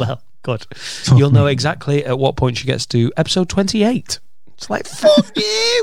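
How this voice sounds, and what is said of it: Usual voice. Nothing is said of it.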